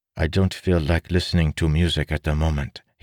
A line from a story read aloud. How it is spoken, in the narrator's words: he said